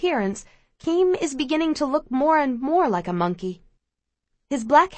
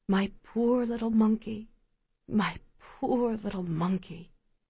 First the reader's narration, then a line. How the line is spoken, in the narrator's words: Ma watches and whispers